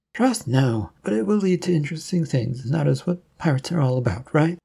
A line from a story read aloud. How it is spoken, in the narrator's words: He sighed